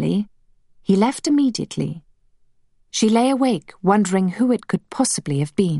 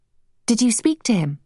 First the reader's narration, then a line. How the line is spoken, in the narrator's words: asked Emma